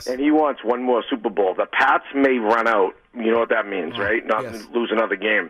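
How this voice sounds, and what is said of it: Hoarse voice. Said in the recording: “if you can tell my voice is hoarse ... why is my voice hoarse? ... I did karaoke”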